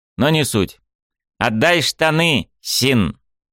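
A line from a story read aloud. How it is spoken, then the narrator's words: Grandiose shout. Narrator (Russian): Пафосно прокричал он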